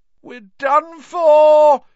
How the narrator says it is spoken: he moaned as the ceiling sagged

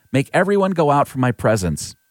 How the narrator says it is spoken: Joseph was no longer able to control himself, so he cried out

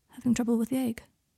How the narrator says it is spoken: Draco quietly took Harry's wrist and said

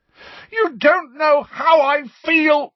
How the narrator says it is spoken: Harry roared

